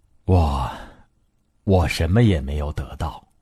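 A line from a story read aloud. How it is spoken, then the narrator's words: Old man, sighing reply. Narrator (Chinese): 盲老人叹息着回答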